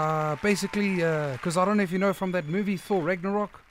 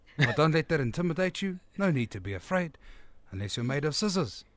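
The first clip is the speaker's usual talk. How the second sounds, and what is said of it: New Zealand accent character voice. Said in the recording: “I love the New Zealand accent ... that character named Korg”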